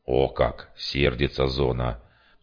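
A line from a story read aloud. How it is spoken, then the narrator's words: Muttering. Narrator (Russian): Пробурчал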